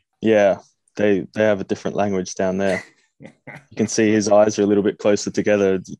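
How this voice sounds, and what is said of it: Australian accent. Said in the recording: “go normal Aussie ... You've got a nice Australian accent.”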